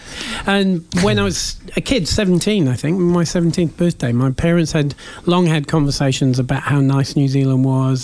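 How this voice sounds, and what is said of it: Mixed English-based accent. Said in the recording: “I was born in England, and you can probably tell that by the accent ... I can never figure out what your accent is ... It's a mashup.”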